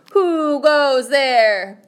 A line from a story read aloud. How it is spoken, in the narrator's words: hollered Skippito